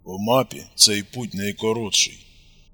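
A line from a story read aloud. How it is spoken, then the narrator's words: Grumbled. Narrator (Russian): буркнул Костик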